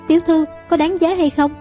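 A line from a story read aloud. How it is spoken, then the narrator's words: Sobbing. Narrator (Vietnamese): Tiểu Đào nức nở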